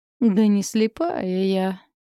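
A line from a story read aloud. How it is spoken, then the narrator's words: Drawled. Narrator (Russian): протянула Элли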